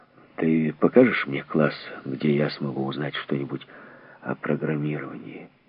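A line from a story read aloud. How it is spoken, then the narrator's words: Muttered. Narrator (Russian): буркнул, обращаясь к Омани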